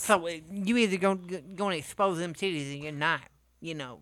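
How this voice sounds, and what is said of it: Low, drunken imitation of a rapper. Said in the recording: “the worst Ice-T impersonation ... I'm doing like drunk Ice-T ... You sound like a Mike Tyson, a low-voiced Mike Tyson.”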